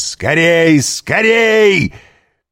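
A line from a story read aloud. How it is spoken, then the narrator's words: Startling shout. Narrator (Russian): крикнул он таким голосом, что кучер привскочил на козлах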